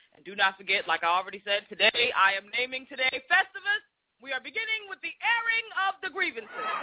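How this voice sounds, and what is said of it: Black Boston accent. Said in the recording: “our accent... I get it from y'all for sounding like Boston... sounding like white Boston... there's a black Boston accent”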